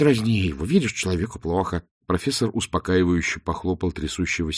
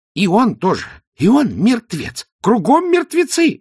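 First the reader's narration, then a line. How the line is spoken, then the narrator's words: Wailing, slightly unhinged. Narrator (Russian): завопил казначей, слегка утративший связь с реальностью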